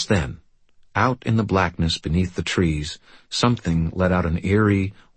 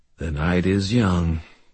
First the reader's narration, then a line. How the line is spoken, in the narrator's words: my father said dryly